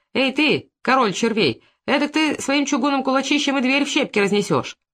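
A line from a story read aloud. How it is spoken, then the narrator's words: Cheerful old woman. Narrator (Russian): старуха, сказала весело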